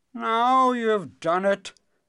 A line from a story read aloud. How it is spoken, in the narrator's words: groaned the king